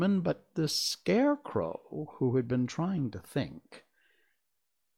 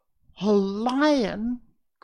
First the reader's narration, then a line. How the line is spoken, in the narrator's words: cried the little queen